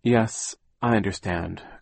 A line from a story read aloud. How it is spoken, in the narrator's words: Klaus said, sighing